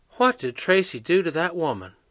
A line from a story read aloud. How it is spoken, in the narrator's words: Granny muttered